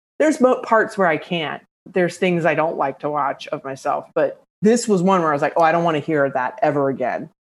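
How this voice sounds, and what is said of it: Mixed Southern US and New York accent. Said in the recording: “you have an amazing, like singular accent ... It is a weird mishmash of, I have definite, you know, traces of Southern ... I lived in New York City for 13 years ... my first husband was from Philly”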